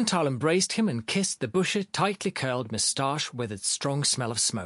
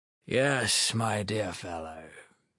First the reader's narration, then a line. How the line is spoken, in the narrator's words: Philip Filipovich mumbled in confusion